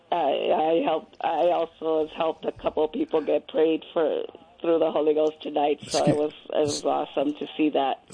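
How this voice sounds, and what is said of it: Hoarse voice. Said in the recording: “I'm really hoarse from all the speaking in tongues”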